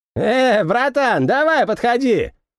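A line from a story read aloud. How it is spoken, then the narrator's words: Shout. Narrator (Russian): крикнул барыга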